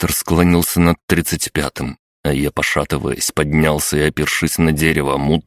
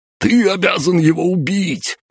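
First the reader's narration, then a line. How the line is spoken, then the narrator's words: Shrieking. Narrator (Russian): визжал граф Чурпасов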